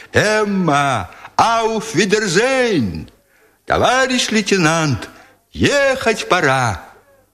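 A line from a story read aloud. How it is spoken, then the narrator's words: Cheerful scattered soldiers' shouts. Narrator (Russian): голоса солдат, которые весело кричали им в разнобой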